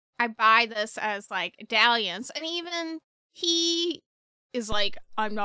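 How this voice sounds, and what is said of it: Usual voice. Nothing is said of it.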